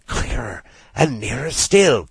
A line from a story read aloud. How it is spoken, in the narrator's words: cried Rat joyously